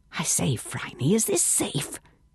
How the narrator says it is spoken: whispered Bungie

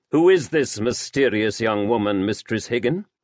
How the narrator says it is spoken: Lavender asked

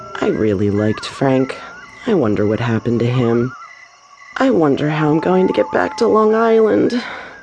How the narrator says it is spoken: Carol murmured

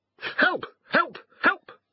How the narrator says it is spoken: cried Garm

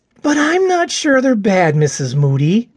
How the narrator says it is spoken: Johnny sighed

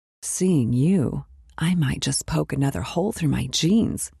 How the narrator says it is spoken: whispered

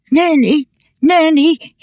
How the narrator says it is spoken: he cried, sobbing the words out on the crest of each gasping breath

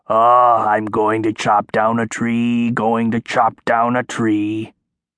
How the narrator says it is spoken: the troll wife came by, carrying a huge axe on her shoulder and muttering

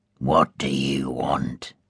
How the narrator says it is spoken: he asked, his voice harsh

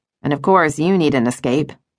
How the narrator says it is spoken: Justine said dryly

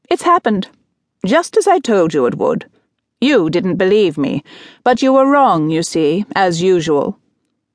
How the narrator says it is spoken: said, with an abrupt, strident laugh

